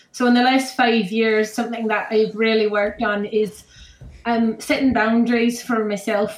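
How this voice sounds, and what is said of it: Put-on Irish or Scottish accent. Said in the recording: “this one's going to be your Irish or your Scottish accent because you're not sure what it is”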